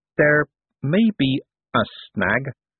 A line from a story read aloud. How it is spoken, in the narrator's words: said Adora Bell slowly